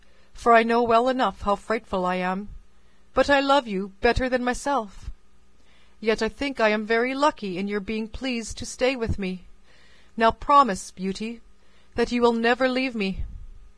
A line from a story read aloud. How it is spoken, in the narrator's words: sighed the beast